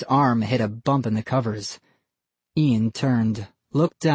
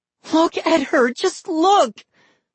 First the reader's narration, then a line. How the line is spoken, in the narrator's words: Molly screamed